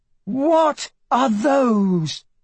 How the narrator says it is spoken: Emma cried

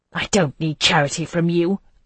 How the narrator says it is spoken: I spat at him

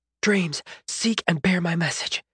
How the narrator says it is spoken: she whispered

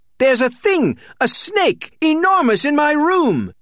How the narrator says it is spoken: yelled Merriweather

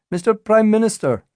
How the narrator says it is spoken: shouted a reporter

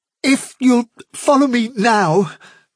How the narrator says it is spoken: replied Hazel desperately

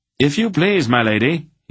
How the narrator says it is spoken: he called out to Aunt Paul

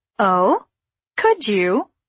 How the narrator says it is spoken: He laughed

